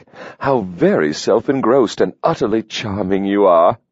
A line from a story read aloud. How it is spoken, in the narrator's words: His laughter rolled